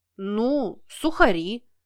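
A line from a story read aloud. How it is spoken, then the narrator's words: Drawled. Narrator (Russian): Протянул тот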